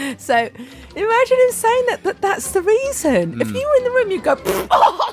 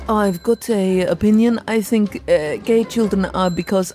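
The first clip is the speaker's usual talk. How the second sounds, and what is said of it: Poor imitation of the bishop's accent. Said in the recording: “I'm not doing the right accent.”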